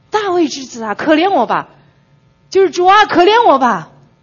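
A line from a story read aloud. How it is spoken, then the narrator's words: Loud cry. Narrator (Chinese): 巴迪买他就要大声喊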